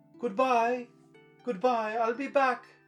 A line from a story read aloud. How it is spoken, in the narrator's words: he shouted